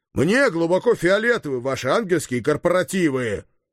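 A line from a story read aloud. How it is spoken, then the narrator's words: Yelling. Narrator (Russian): заорал я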